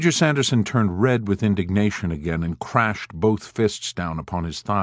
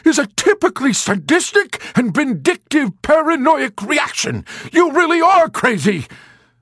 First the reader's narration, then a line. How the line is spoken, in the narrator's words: he shouted in a sputtering rage